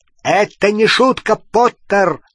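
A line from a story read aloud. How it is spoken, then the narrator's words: Barking. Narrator (Russian): рявкнул Скримджер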